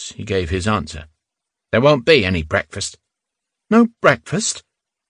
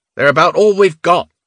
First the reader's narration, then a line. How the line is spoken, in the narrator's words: Squint Eyes said, raising his voice